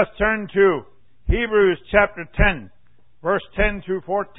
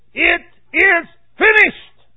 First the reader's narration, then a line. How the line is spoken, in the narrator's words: Jesus cried that on the cross, that last statement, and said